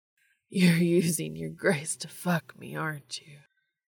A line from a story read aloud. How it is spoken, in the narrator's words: Dean moaned